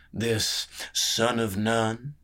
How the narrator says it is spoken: He sneered as the name came off his tongue

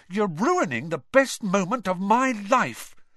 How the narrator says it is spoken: said Ron furiously

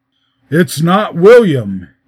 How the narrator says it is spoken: answered gruffly

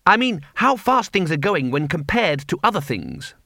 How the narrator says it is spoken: Ponder said quickly

